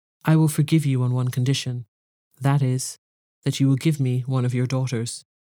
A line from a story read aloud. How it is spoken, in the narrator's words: he said in a less furious tone